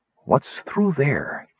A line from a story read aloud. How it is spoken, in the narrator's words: Kitty Arr hissed